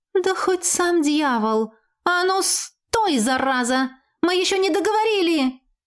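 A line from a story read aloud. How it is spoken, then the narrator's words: Howling yell. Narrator (Russian): Взвыла я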